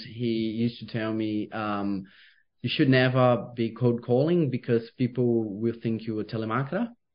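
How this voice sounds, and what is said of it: Speaker's own noticeable accent. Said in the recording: “because of my accent ... the accent definitely does help”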